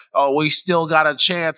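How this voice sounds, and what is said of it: Imitates another person's voice. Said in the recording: “that was a horrible impression of me”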